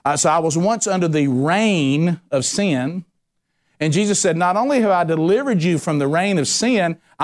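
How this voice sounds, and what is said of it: Country accent. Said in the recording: “because of my country accent, you may not know I'm saying realm”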